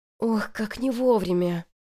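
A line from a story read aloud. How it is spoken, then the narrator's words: Sighed. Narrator (Russian): вздохнула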